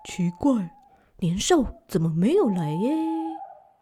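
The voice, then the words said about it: Quiet, hushed questioning voice. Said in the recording (Chinese): “小声的问”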